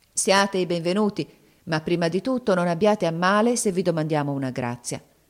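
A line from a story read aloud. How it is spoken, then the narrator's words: Grave, serious. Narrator (Italian): Zobeida disse loro con tuono grave e serio come a lei conveniva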